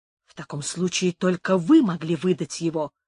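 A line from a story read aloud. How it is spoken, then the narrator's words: Angry. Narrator (Russian): сердито сказала Бланка Мария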